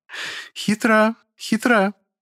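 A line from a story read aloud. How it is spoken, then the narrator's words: Crystalline laughter. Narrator (Russian): хрустально рассмеялась повелительница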